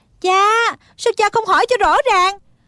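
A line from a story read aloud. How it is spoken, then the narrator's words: Urgent cry. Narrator (Vietnamese): Thích Phương vội vàng kêu lên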